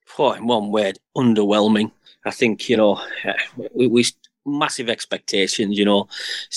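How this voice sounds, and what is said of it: Middlesbrough (Teesside) English accent. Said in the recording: “it's an accent I can actually understand for once ... Proper accent, innit? Proper. ... proper Borough accent”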